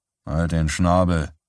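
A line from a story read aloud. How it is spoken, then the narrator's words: Grumbled retort. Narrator (German): brummte er zurück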